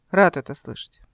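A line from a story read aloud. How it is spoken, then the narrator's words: Ambiguous tone. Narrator (Russian): неясным тоном сказал он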